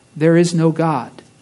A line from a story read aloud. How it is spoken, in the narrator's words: It repeated in a softer and deeper voice